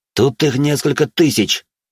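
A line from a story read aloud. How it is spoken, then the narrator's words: Growled. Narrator (Russian): прорычал я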